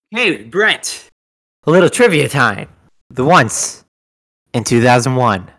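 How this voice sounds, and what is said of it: Usual voice. Nothing is said of it.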